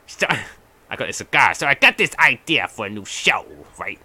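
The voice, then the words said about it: Put-on accent. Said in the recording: “I don't know why I'm doing that accent because it's British”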